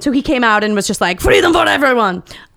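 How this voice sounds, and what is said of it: Imitates another person's voice. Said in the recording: “That's my Voltaire impersonation. It's very good.”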